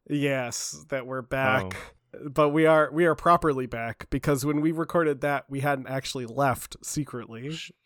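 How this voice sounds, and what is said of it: Voice sounds off from a cold. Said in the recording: “I'm recovering from what I believe is a cold, so my voice might sound weird in this episode.”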